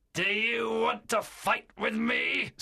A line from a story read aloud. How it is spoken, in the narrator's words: Silver shouted in a terrible voice